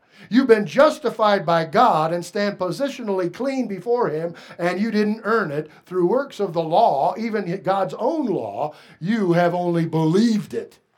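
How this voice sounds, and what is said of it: Voice rising higher and higher. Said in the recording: “my voice has been going up and up”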